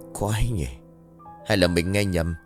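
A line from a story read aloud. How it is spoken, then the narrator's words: Puzzled muttering. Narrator (Vietnamese): Anh ... lẩm bẩm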